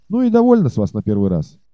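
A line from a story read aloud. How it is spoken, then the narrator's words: Cheerful and decisive. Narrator (Russian): прибавил он весело и решительно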